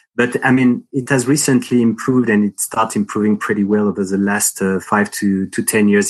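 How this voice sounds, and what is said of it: Strong French accent. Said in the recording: “You can also hear that I have a strong French accent”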